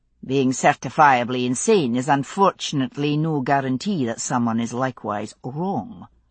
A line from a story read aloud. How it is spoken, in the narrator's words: Roger said dryly